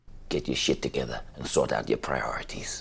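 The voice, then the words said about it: Put-on German accent, slipping. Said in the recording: “This is him losing the accent just a little bit. ... That doesn't sound German at all.”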